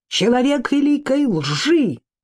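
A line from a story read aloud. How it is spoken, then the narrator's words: Blurted shout. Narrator (Russian): Ци выкрикнул первое, что взбрело ему в голову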